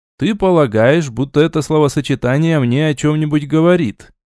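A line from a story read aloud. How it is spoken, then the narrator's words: Sarcastic question. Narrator (Russian): ехидно спросил я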